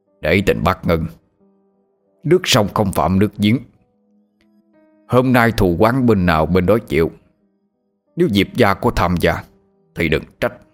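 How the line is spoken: Harsh stern voice. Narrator (Vietnamese): Viễn Từ đại sư gằn giọng nói

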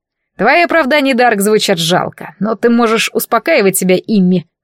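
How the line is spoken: Chuckling prince. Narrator (Russian): хохотнул принц

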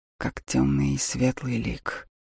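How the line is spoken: Hoarse voice. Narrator (Russian): охрипшим голосом добавил Лорел

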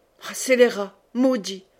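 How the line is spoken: Exclaimed. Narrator (French): s'écria Aubry, qui avait de la sueur aux tempes

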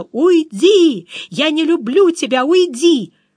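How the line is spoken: Sobbing, strained screaming. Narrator (Russian): Он надрывно, взахлеб, кричал мне

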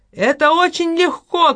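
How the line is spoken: Shouted. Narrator (Russian): крикнул он

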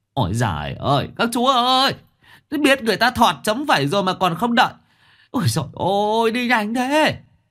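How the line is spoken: Frightened wail. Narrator (Vietnamese): Quyết Thọt sợ mà gào lên

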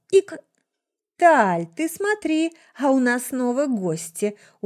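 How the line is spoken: Smiling drawl. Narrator (Russian): Улыбнувшись, протянул ректор Академии Триединства

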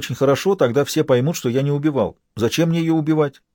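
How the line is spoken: Calm answer despite fear. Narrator (Russian): Я был страшно испуган, но отвечал спокойно

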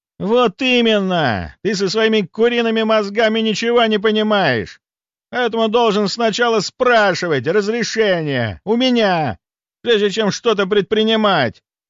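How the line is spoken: Furious spluttering shout. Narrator (Russian): прокричал раскрасневшийся граф, брызгая слюной

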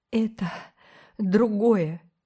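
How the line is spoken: Halting, holding back sobs. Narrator (Russian): Риле приходилось делать паузу после каждого слова, чтобы подавить рвущееся из груди рыдание

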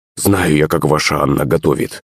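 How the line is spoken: Grumbling. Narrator (Russian): пробурчала Пышка

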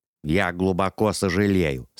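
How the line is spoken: Plain. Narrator (Russian): сказал он

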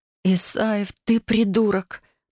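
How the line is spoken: Moaning. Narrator (Russian): простонала я

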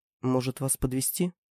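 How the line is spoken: Unexpectedly soft question. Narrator (Russian): спросил неожиданно мягко

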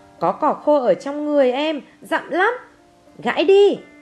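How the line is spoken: Shouted. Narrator (Vietnamese): Thằng Avery hét

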